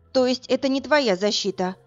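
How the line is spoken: Weary sigh. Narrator (Russian): устало вздохнула Варя

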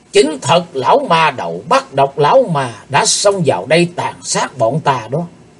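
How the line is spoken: Hissing with hatred. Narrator (Vietnamese): Tên cao thủ như rít giọng căm hận

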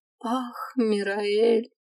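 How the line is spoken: Tearful tone. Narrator (Russian): плачущим тоном произнесла я

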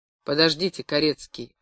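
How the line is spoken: Plain. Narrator (Russian): опять сказал я

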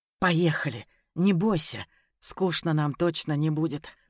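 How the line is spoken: Hoarse rasp. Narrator (Russian): прохрипел я

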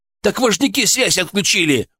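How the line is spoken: Distant shout from stairs. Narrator (Russian): уже с лестницы крикнул охранник

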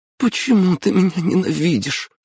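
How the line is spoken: Sobbing. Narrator (Russian): всхлипнула девушка

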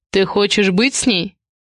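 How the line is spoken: Unexpectedly calm. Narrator (Russian): Слова прозвучали неожиданно спокойно

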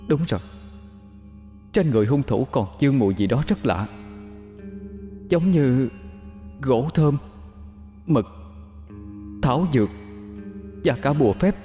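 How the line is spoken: Ghost's trembling broken voice. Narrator (Vietnamese): vong hồn Nhã Thanh bỗng rùng mình nhớ ra, đôi mắt chăn đầy tơ máu, giọng run rẩy đứt quãng

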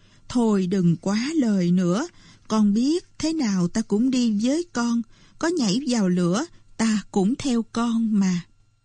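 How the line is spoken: Sighing reply. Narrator (Vietnamese): Bà Mực liền thở dài rồi đáp

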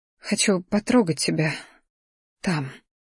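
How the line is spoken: Quiet. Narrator (Russian): тихо произнесла Сия

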